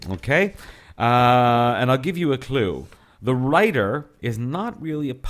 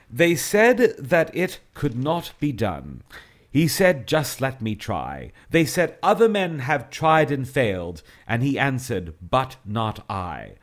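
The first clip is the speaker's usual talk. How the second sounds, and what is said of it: Put-on English accent. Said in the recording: “maybe I should do my best to do it with an English accent... It will sound a bit silly if I do it with an English accent”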